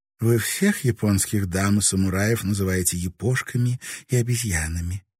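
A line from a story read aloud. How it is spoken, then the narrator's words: Short laugh. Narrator (Russian): Моряк коротко хохотнул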